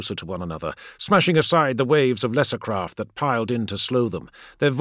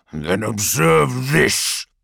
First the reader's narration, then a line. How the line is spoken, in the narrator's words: he snarled